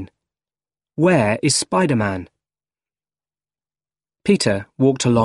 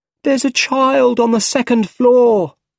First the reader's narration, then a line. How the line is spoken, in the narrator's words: someone cried